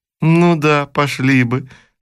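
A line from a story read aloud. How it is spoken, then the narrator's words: Laughing. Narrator (Russian): снова засмеялась Анна Петровна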